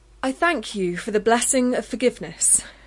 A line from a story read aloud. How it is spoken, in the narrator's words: she said loudly